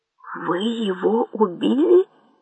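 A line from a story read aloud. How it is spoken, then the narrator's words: Whispered question. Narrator (Russian): почему-то шепотом спросил Анджей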